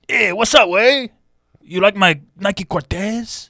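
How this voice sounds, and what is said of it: Put-on Mexican accent. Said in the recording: “Do a Mexican accent.”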